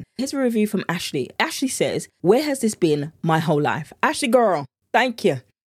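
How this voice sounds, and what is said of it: British accent. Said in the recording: “accent is everything... the British accent in me”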